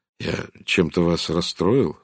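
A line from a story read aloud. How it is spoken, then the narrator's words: Gentle question. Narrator (Russian): спросил он мягко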